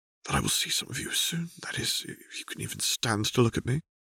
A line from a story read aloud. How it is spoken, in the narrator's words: Mel said quietly